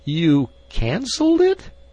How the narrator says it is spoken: he quavered

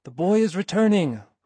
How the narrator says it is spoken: cried a voice to other voices

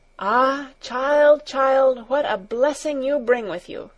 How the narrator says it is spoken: the old woman exclaimed

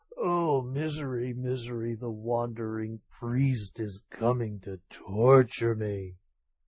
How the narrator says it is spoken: undone by such ceaseless vexation, Tokubei fell ill, and kept muttering

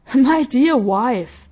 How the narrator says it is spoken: replied the husband, laughing heartily

